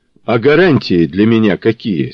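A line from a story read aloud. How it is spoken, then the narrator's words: Almost calm question. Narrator (Russian): спросила Нина почти спокойно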